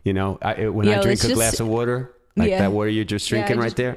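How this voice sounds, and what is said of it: Put-on Philadelphia accent. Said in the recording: “You don't have the accent either. ... I can go right back there.”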